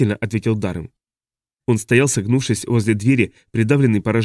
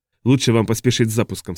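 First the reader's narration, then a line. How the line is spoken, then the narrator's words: Plain. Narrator (Russian): сказал он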